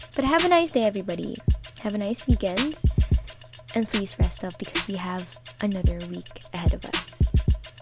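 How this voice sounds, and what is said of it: Groggy just-woke-up voice. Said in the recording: “sorry for the voice because I just woke up”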